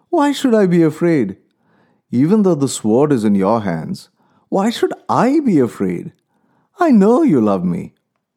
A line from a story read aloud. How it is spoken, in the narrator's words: The wife started to laugh and said